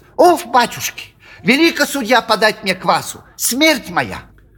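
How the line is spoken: Angry shrill tenor. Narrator (Russian): сердито тараща на него глаза, заговорил визгливым тенором

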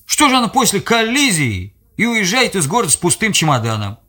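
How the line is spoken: Unusually loud in silence. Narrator (Russian): В тишине его слова прозвучали необычно громко

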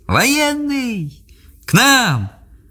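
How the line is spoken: Shouting together in recognition. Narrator (Russian): Доярки, увидев знакомого солдата, дружно закричали

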